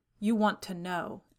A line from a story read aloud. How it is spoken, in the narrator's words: said Brown bitterly